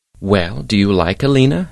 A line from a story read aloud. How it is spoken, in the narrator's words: asks